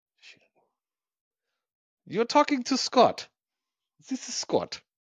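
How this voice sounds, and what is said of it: Put-on German accent. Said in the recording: “Say it in German accent. ... I love it. That's so good.”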